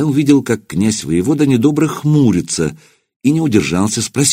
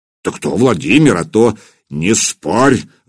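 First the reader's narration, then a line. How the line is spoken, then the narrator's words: Growled. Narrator (Russian): рыкнул на сотника Кулиба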